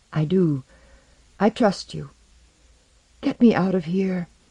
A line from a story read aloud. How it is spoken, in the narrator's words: the young king whispered